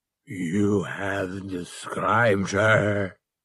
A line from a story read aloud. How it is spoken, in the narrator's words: he growled, finally